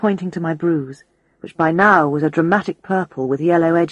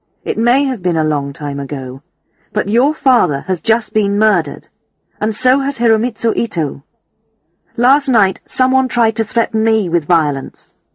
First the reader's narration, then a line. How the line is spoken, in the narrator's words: I said firmly